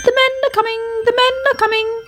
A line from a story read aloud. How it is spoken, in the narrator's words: he chirped anxiously